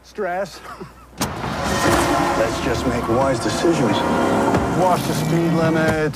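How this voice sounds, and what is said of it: New York accent. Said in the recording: “He's got like a New York accent, kind of?”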